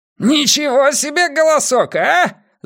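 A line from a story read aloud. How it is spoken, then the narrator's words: Yelling over noise. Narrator (Russian): завопил он сквозь грохот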